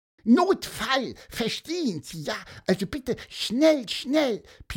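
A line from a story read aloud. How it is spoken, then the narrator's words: Squeaky. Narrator (German): piepste Pieper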